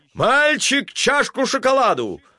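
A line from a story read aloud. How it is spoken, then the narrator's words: Shouting from afar. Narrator (Russian): закричал он еще издали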